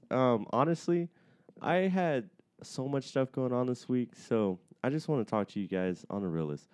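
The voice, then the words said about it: Slightly out of breath, mellow. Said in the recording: “I'm a little out of breath today. ... You're a little mellow today. ... A little out of breath. ... a little mellow”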